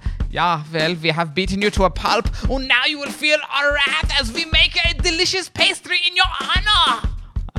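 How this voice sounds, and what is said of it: Poorly done put-on accent. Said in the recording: “I'm not good at that accent.”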